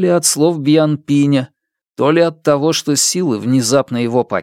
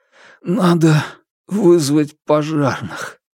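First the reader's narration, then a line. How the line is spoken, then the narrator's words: Breathless, wheezing. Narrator (Russian): Несколько минут он с хрипом хватал ртом воздух, а потом сказал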